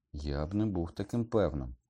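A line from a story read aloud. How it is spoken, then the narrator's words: Muttered. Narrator (Ukrainian): пробурмотів Гаррі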